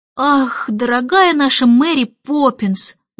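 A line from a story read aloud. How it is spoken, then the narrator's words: Sighing. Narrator (Russian): вздохнул Майкл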